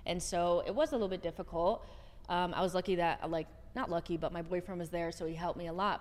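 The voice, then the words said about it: American accent. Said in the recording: “people will just hear your accent, hear where you're from ... because I'm American”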